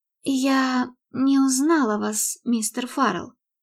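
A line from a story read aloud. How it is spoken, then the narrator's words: Stammering mumble. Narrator (Russian): пробормотала она, заикаясь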